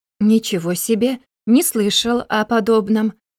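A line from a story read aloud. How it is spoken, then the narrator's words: Without stuttering. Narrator (Russian): сказал Винни без заикания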